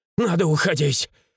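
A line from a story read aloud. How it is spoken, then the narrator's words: Father's coughing wheeze. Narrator (Russian): ее отец закашлялся в приступе прохрипел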